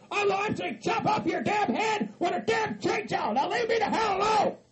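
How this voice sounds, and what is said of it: Angry screaming. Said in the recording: “why are you screaming”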